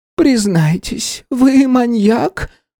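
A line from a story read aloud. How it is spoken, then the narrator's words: Trembling voice. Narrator (Russian): дрожащим голосом спросила консьержка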